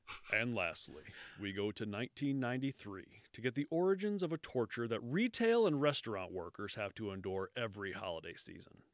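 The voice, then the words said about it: Dramatic true-crime narrator voice. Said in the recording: “give me my true crime voice”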